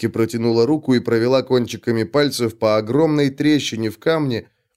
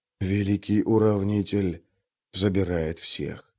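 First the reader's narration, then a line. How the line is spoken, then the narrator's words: Quiet. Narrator (Russian): тихо проговорил Трясучка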